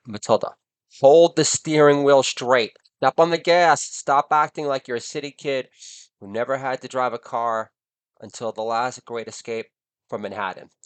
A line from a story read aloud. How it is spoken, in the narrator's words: yelling